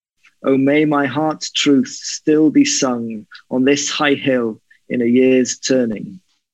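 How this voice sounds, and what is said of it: Slight Welsh accent. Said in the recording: “Did it pick up a Welsh accent in your reading? ... I used to have a very strong Welsh accent, but it's been slowly leached out of me”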